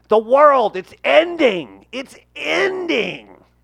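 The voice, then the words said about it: Imitates another person's voice. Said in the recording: “Give us your best Marc Maron.”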